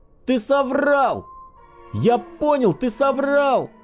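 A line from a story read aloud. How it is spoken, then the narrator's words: Sudden yell. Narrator (Russian): Внезапно заорал Мишка Ивлев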